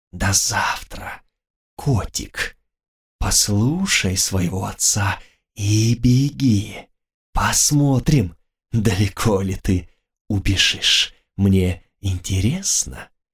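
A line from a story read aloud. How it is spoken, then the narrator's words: Vampire hissing. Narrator (Russian): вампир прошипел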